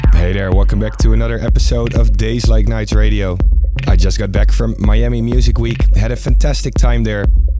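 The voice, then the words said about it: Congested voice from a cold. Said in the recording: “I got a bit of a cold in the last few days. Still feeling that right now, and you can probably hear it in my voice as well.”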